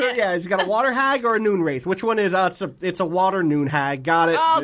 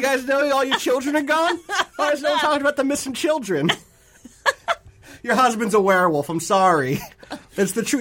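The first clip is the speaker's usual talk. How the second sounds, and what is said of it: Weird put-on Brooklyn New York accent. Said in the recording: “this witcher has adopted a very weird accent ... You know Geralt is from Brooklyn? ... The New York witcher”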